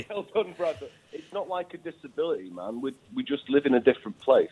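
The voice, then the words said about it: Northern English accent. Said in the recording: “you sound northern.”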